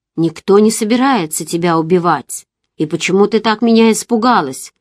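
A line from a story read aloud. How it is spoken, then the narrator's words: Angry. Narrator (Russian): сердито сказал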